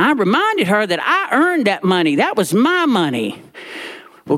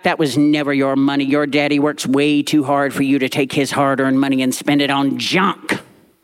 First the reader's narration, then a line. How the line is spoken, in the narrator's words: Granny snapped back